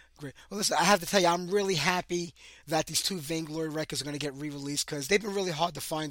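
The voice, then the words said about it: Hoarse, cracking voice from a cold. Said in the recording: “my voice is cracking ... I have a really bad summer cold and cough, so I was trying to save my voice”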